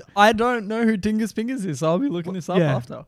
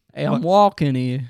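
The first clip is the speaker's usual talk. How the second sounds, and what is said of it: Put-on New York accent. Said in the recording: “it's a full-on New York accent”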